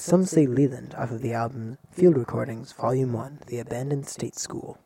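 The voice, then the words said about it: Smooth radio DJ voice. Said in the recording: “I'm doing my smooth radio DJ voice”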